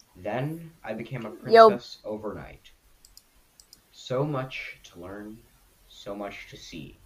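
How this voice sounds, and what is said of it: Song lines in a serious voice. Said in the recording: “that in a serious voice ... my serious voice impression of that song”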